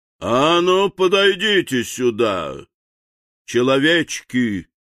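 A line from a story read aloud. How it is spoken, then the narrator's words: Menacing thunderous command. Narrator (Russian): грозно приказал волшебник, и его голос прозвучал, как раскат грома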